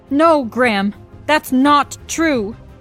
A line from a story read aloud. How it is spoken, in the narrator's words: my mom pleaded